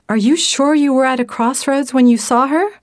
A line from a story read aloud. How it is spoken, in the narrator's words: Isabella gasped and said